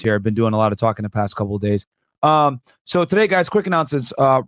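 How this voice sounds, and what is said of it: Hoarse, strained voice. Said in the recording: “lose my voice”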